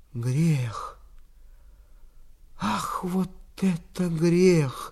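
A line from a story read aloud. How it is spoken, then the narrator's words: Whispered. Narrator (Russian): шептал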